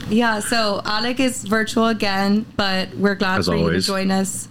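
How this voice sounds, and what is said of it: Raspy voice. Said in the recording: “my voice sounds so like ... raspy ... it sounds like sexy a little bit”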